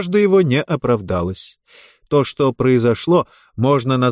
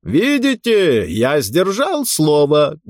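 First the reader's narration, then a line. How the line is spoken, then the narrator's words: Loud and cheerful. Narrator (Russian): громко и весело сказал он высокой даме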